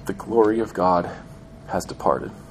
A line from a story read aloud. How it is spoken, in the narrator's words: dying woman, breathing her last breath and mumbling her last words